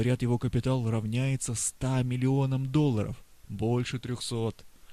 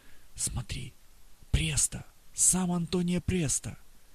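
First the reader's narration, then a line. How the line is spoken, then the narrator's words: Quiet murmur. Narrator (Russian): Знакомые тихо говорят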